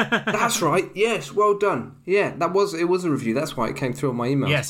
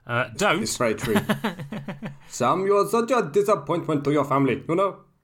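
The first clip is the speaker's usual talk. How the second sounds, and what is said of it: Put-on Indian accent. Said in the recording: “When in doubt, do an Indian accent.”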